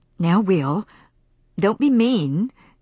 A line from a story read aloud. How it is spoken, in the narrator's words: she said